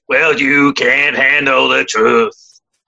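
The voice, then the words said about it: Jack Nicholson impression. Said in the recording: “that impeccable impression ... That was a line from one of the biggest movies, 1992, A Few Good Men ... Nicholson”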